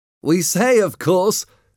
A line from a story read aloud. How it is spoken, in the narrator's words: exclaimed